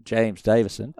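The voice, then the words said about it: Put-on Australian accent. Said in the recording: “I'll do it my best Australian accent”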